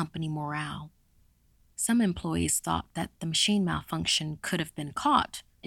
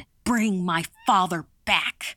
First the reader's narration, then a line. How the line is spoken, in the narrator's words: shouted